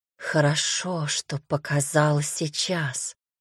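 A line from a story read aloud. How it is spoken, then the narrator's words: Delighted whisper. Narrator (Russian): восторженно прошептала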